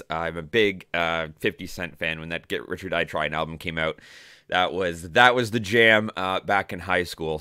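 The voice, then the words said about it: Slightly hoarse voice. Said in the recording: “my voice sounds a little bit off or crappy this morning ... Voice is a little bit hoarse”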